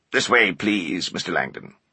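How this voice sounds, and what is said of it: Rigid, precise, computerized-sounding voice. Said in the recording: “His voice sounded almost computerized. His accent was rigid and precise, like his stern features.”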